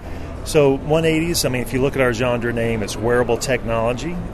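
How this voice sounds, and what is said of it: Southern US accent. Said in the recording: “Do you have an accent? ... I'm from North Carolina ... try to bring a little bit of the southern flavor to the West Coast”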